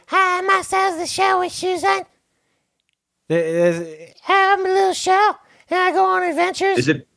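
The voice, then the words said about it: Small cute character voice. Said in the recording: “That was actually a really good impression”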